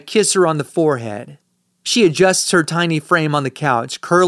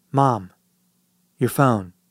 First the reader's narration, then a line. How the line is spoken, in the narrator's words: I whisper